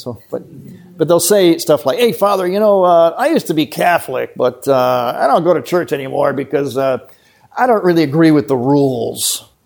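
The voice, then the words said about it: American accent. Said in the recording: “you have to put up with my American accent.”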